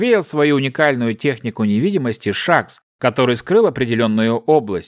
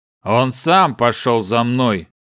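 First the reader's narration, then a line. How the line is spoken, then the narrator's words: Short, deep bass. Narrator (Russian): Коротко пробасил Глефус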